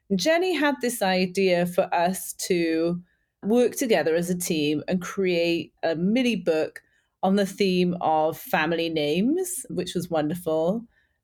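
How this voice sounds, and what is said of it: Welsh accent. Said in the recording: “you can probably tell by my accent that I'm actually not originally from the States ... originally from Wales”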